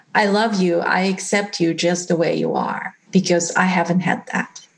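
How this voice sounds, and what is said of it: Emotional, choked-up voice. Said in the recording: “gosh, I'm getting emotional over this”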